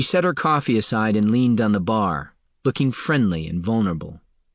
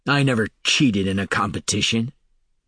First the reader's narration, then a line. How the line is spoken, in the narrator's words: Falinar snarled